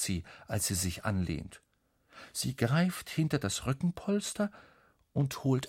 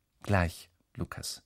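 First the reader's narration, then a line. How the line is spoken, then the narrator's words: Plain. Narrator (German): sagt sie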